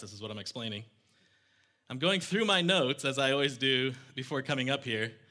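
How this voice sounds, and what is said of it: Out of breath. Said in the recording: “Sorry for being out of breath.”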